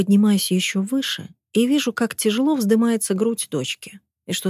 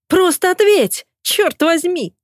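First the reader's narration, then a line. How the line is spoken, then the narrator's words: Shrill shriek. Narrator (Russian): взвизгивает Ди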